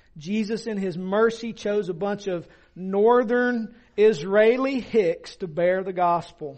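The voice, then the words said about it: Southern US accent. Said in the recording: “people say, oh, you're from the South. ... it's not like it's, you know, not obvious, right? Yeah, my accent gives me away.”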